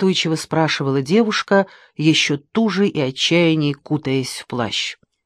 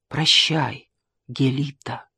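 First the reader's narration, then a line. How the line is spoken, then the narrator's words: Sad, smiling farewell. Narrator (Russian): грустно улыбнулся Геродот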